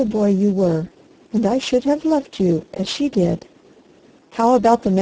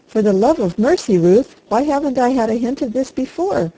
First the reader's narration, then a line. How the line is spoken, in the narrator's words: He cried